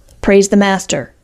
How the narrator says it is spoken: snapped Bill

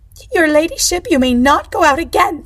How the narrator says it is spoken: the chaperone said, her voice trembling

